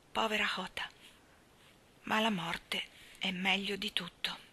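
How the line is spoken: Sighing. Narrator (Italian): disse sospirando

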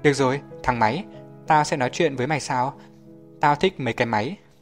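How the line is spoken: Laughing. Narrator (Vietnamese): Vợ Curly bật cười

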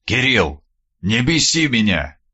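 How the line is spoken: Quiet, flat tone. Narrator (Russian): Тихим бесцветным тоном произнес Скуратов

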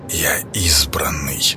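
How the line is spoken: Whisper. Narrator (Russian): прошептал Клейдом

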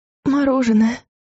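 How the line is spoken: Breathless exhale. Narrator (Russian): выдохнула Луиза

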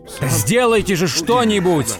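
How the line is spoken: Yelling. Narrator (Russian): вопил он

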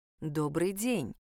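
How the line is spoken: Soft ingratiating voice. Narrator (Russian): мягким вкрадчивым голосом ответила экстрасенс

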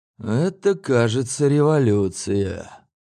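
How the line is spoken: Mumbling. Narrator (Russian): промямлил художник

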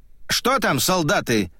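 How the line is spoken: Shouting. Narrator (Russian): прокричал он

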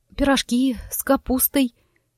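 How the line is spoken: Quiet, embarrassed. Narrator (Russian): тихо произнесла я, внезапно почувствовав странное смущение

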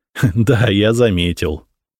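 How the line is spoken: Laughing. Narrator (Russian): рассмеялся

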